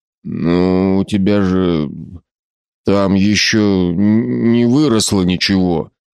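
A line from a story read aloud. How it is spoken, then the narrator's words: Dry-throated, strained words. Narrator (Russian): выдавил из пересохшего горла Северский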